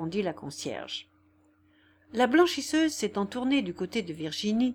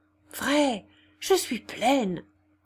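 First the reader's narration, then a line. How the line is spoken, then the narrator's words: Murmured. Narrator (French): murmura-t-elle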